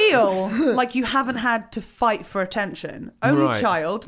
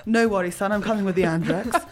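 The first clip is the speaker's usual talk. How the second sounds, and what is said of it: Imitates another person's voice, English. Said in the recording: “Is that a good impression? Is she English?”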